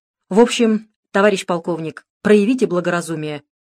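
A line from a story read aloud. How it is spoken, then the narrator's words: Said loudly. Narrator (Russian): громко произнес Нефедов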